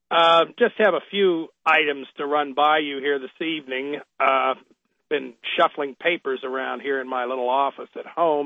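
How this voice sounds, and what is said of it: Congested, sniffly voice from a cold. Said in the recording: “I think I have a little bit of a cold settling in here. I have a bit of a headache and feel a little sniffly”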